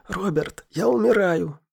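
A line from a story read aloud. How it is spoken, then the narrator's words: Hoarse wheeze. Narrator (Russian): просипел Алекс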